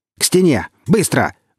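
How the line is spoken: Barked command. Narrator (Russian): гаркнул сталкер

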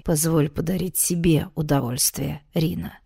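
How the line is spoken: Low hoarse voice. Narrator (Russian): низким хриплым голосом произнес он

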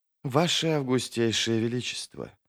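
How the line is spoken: Quiet. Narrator (Russian): произнесла Тереза негромко

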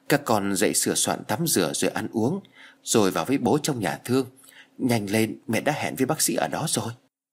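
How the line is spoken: Tearful soft mother. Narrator (Vietnamese): Mẹ nó lệ ướt lưng tròng, chỉ nhỏ nhẹ rồi nói

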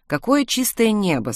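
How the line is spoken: Plain. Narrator (Russian): сказала мама Смит

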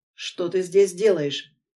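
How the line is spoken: Menacing, shaking with rage. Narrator (Russian): Грозно выдаю, ощущая, как от ярости колотит всего

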